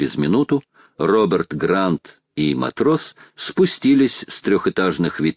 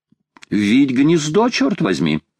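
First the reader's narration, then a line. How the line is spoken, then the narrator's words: Cheerful. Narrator (Russian): весело сказал Паганель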